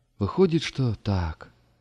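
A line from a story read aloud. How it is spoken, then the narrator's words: Sighing guard. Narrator (Russian): вздохнул стражник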